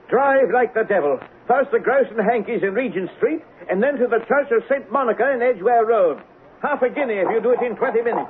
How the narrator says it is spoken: shouted

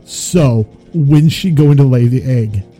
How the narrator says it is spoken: laughing some more

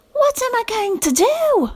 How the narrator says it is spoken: yelled

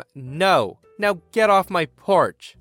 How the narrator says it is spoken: with my voice raised, I scream

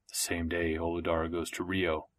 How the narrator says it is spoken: said Gerard under his breath

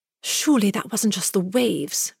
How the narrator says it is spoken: Mary gasped

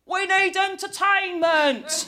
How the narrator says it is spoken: yells a fat, rich, married man like you find at strip clubs

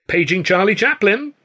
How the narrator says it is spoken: the boy called out

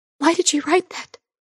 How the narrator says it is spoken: Christine whispered

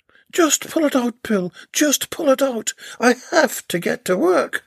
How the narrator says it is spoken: screamed as the waves of pain flooded across her mind

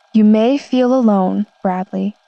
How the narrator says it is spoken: my boss said

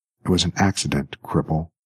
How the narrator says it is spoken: whispered the woman in a stricken voice

